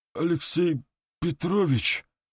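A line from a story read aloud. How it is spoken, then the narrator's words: Hoarse voice. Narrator (Russian): осипшим голосом произнес старший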